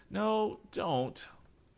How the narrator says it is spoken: pleaded Tom

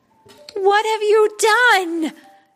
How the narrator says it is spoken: Princess Atta cried

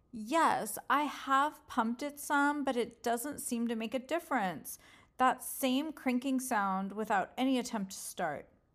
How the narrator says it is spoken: Mimi answered

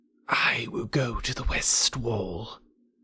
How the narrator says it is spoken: Kaa whispered

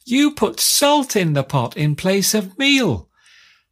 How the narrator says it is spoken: the first taste she got, she spat out and screamed

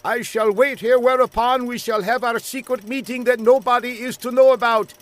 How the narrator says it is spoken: shouted the young man

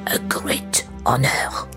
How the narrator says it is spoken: Jacques whispered to Antoine

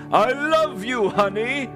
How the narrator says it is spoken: Santa groveled, cried, and pleaded

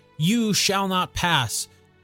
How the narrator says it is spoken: in a much better voice than I did

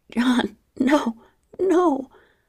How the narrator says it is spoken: I pleaded

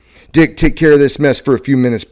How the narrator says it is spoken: Brown shouted

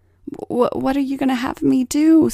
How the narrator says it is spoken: stammered Paul

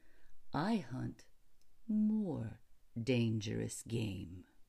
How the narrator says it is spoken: he said in the same slow tone

